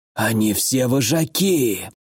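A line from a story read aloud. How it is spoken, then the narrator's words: Hoarse rasp. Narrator (Russian): прохрипел лидер отряда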